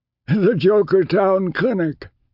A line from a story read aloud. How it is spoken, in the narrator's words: the astronomer laughed wheezily